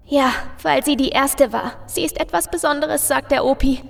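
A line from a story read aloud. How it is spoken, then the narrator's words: Little girl softly sobbing. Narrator (German): bringt das kleine Mädchen unter leisen Schluchzern hervor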